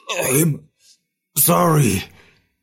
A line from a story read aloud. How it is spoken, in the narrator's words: sputtered the voice of Emig Grokera